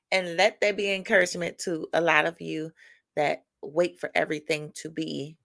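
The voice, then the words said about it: Scratchy morning voice. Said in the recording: “my voice sounds a little scratchy. It is morning... I'm just waking up”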